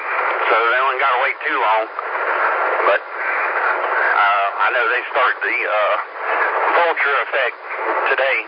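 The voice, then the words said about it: Southern accent, congested voice. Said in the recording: “my southern accent and sinuses are getting me this morning”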